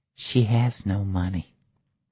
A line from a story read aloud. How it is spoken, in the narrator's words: The waitress whispered